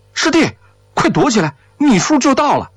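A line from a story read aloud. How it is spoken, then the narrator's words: Hurried shout inward. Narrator (Chinese): 德子冲着里面就喊上了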